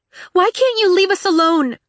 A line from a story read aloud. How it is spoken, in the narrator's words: She cried